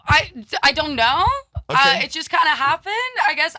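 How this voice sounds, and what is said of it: American-sounding accent, not Swedish. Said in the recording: “you sound totally American. You don't sound Swedish”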